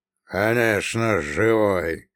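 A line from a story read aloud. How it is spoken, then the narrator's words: Snorting. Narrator (Russian): хмыкнул Прокоп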